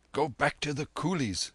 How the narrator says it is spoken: whispered the Babu in his ear

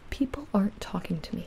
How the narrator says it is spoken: I said

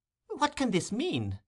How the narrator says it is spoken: exclaimed the elder lady

